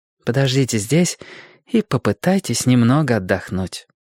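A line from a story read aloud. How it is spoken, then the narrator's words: Soft, gentle. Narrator (Russian): мягко сказала она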